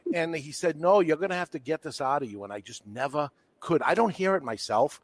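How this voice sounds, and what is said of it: Boston New England accent. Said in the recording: “Your New England accent is so terrible. You sound like a Bostonian. ... I am a Bostonian ... That's what I sound like, and I can't help it.”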